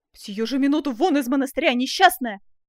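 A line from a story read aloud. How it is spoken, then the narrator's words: Angry shout. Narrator (Russian): закричал разгневанный отец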